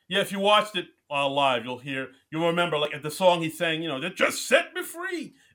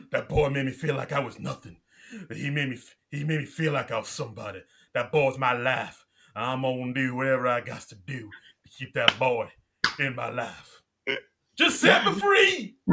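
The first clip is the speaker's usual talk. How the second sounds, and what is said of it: Imitates another person's voice, dramatically. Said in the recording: “your Justin Timberlake impression”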